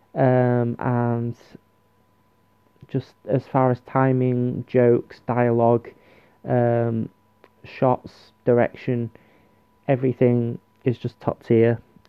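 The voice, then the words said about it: Worn, deteriorated voice. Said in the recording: “my voice has deteriorated through it”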